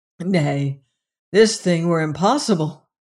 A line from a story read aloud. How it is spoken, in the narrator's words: cried